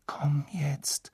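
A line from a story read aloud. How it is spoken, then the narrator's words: Murmur. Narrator (German): murmelte er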